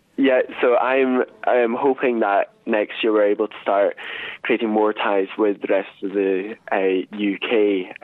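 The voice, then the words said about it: Scottish accent. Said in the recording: “I'm actually phoning you from Scotland because that's where I'm from. ... I was going to ask about the accent”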